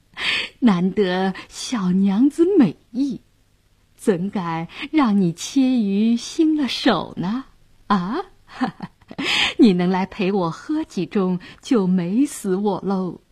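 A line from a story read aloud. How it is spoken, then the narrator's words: Leering laugh. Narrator (Chinese): 杨衙内色眯眯地笑道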